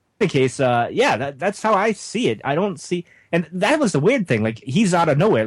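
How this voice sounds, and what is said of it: New England accent. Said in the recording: “I'm from New England, as you guys know, so my accent's a little weird”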